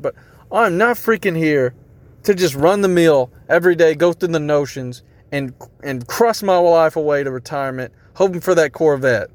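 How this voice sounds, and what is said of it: Yelling, fired-up delivery. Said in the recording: “Man, I'm getting fired up on this because I'm yelling”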